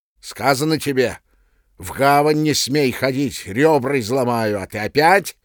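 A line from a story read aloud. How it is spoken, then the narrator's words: Menacing shout. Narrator (Russian): грозно кричал сторож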